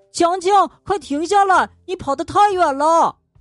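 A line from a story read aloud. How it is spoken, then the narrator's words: Anxious shout. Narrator (Chinese): 小智着急的大喊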